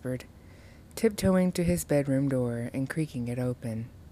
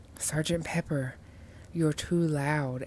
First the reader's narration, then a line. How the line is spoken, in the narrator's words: whispered